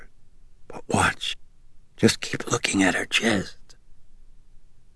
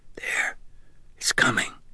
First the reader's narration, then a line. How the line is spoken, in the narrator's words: Sharon whispered sharply